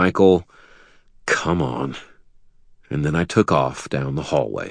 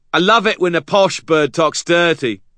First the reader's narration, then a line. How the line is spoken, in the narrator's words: called Binder merrily from upstairs